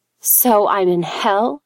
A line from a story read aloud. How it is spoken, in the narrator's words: she spat back